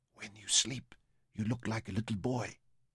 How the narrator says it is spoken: whispered

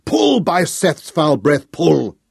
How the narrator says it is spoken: Thanos howled at his men

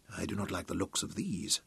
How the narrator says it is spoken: said Tom uneasily

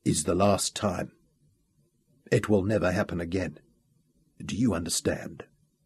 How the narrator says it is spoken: he said quietly

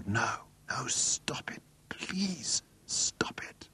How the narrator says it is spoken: the final humiliation, and he found he was whispering aloud

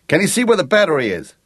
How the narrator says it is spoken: yelled Jake

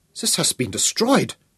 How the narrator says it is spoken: he cried in horror

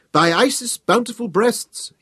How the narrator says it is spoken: exclaimed with an unexpected twinkle in his eye

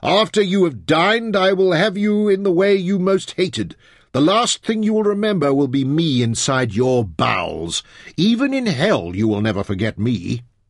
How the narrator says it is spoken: Onka's voice was clearer and closer as he yelled

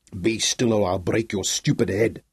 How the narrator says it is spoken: growled Jan Polis

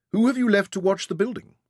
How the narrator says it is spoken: Penrod asked Bakshit

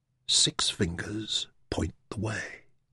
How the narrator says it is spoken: Taita whispered

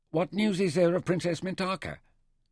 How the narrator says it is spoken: Nefer listened impatiently, and when Hilto had finished, he asked

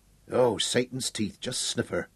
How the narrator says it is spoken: Ned whispered almost to himself

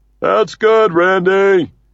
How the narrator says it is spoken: shouts Uncle Red from the Origin

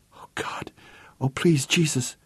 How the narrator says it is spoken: whispered Vicky

